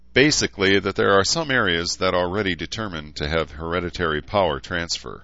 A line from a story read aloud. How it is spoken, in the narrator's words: Edmund sighed